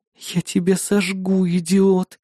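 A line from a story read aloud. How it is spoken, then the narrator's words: Quiet hiss. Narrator (Russian): тихо шипела напарница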